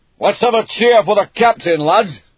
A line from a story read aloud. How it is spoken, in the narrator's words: they yelled until their voices cracked